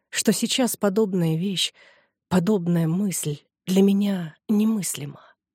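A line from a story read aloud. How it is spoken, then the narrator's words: Calm young woman. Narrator (Russian): спокойно молвила молодая женщина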